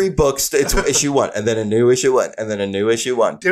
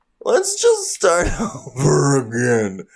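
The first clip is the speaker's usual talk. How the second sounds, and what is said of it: Imitates another voice. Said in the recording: “That's my impression of DC Comics.”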